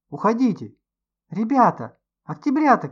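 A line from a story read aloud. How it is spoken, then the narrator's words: Shouting while running. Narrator (Russian): кричал на бегу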